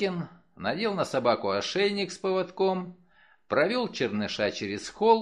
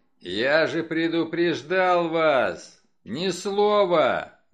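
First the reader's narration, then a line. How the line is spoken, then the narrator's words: Roaring. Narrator (Russian): взревел Стеббинс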